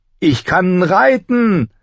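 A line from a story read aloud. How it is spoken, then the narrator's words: Called out grinning. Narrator (German): rief Bran grinsend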